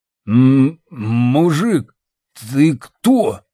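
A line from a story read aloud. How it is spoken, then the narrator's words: Stammering, suddenly sober. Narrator (Russian): заикаясь, произнес моментально протрезвевший Костик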